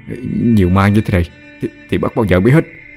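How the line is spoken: Terrified stammering. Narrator (Vietnamese): Lâm Trọc bây giờ sợ đến liếu cả lưỡi, lắp bắp nói

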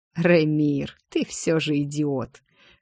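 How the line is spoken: Scornful snort. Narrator (Russian): хмыкнул Эликс

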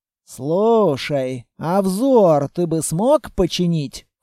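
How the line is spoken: Ingratiating, insinuating question. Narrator (Russian): вкрадчиво спросил Строгов

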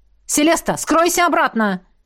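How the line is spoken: Shouted. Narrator (Russian): Крикнул Льерт

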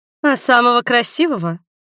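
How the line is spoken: Guffawing man. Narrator (Russian): Дядька расхохотался

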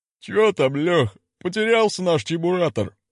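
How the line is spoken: Chuckled. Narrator (Russian): хохотнули изнутри КПП

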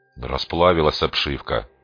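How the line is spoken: Muttered grumble. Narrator (Russian): буркнул Дрон

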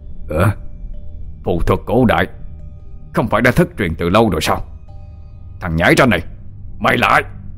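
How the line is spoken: Demon's roar. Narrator (Vietnamese): Quỷ dữ gầm lên một tiếng

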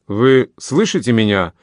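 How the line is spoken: Stern speech. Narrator (Russian): снова строго сказал Сюше молодому адъютанту

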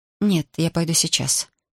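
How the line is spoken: Quiet, female. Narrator (Russian): тихо сказала она

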